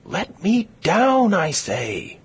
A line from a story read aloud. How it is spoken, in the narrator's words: screamed Katie